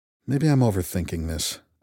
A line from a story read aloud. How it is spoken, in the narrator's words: I muttered